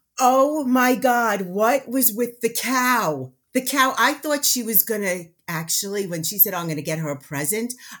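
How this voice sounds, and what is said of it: Loud New York accent. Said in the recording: “you are exactly what I thought you would sound like. ... A loud New Yorker. ... the accent.”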